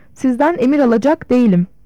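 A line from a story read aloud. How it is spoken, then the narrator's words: Angry shouting. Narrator (Turkish): diye öfke içinde bağırıyordu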